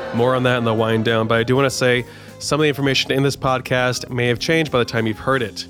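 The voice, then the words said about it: Congested voice. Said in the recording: “my voice sounds different because I'm congested, because I have COVID-19”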